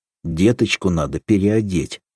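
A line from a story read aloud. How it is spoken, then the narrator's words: Stern. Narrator (Russian): сказал строго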